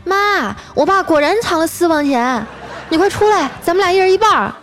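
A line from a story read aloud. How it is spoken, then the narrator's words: Gleeful shout. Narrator (Chinese): 我嫂子乐了，冲厨房大喊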